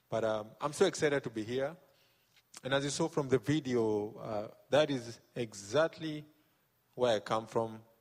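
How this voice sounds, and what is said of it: Kenyan-accented English. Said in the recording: “this is a Kenyan boy living in the south. So my accent is, if by any chance you miss something, just meet me outside and I'll explain”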